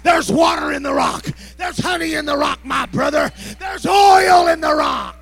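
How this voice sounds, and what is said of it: Loud, excited yelling. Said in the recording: “I'm yelling”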